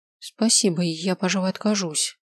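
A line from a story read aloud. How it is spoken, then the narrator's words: Mumbling. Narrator (Russian): пробормотал я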